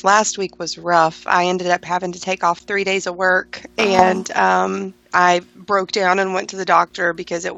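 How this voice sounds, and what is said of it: Congested, slightly off voice. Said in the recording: “my voice sounds a little funny, I'm still getting over some sickness... Still have a little bit of congestion”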